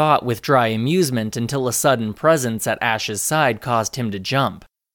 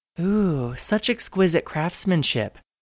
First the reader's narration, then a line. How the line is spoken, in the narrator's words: the girl cooed